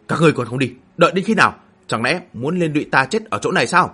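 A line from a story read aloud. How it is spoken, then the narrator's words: Angry shout. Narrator (Vietnamese): Miêu Nghị tức giận quát lớn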